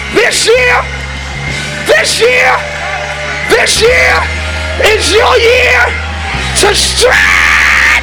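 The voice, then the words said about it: Screaming, yelling loudly. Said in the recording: “I'm screaming ... I know I'm yelling,”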